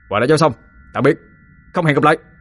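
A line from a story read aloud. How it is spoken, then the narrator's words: Shouting. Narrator (Vietnamese): không quên hét lên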